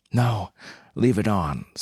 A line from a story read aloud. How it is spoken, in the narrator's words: slurred Hope, her voice all breathless alcoholic delight tinged with panic